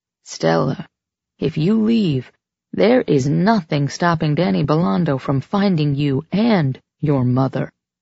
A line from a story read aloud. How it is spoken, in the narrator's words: she said gravely, the first note of concern seeping into her voice